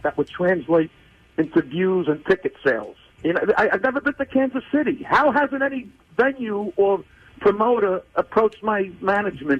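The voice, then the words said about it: Brooklyn accent. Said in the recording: “he's from Brooklyn, where I grew up. I don't know if you could tell with this accent.”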